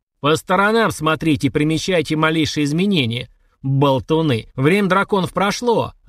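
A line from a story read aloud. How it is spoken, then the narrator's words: Barked. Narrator (Russian): рявкнул он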